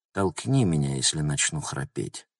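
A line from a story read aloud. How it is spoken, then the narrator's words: Whisper. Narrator (Russian): шепнула она Логану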